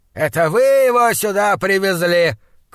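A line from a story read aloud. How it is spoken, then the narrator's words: Father's shout. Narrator (Russian): крикнул отец Джона Чандлера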